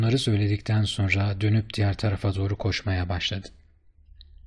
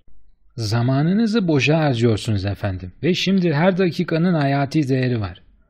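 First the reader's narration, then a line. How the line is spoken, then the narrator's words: Doorman shouting. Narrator (Turkish): diye bağırdı kapıcı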